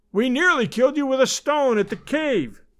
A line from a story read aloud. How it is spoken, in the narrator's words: he cried